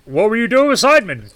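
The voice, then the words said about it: Put-on character accent. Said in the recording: “Oh, dude, I forgot my accent.”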